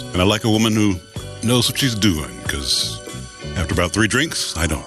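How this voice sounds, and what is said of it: Smooth, sexy radio-style voice. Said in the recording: “got a sexy voice ... He got a really radio voice. You got a sexy voice.”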